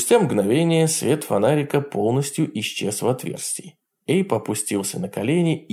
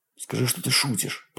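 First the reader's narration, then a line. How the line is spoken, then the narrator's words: Muttering. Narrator (Russian): пробормотал Эйб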